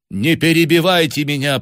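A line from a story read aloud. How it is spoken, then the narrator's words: Commanding woman's tone. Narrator (Russian): повелительным тоном произнесла женщина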